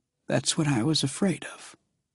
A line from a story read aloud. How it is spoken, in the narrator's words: he half-whispered